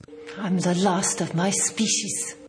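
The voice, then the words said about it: Really strong accent. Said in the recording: “She starts off with a really strong accent.”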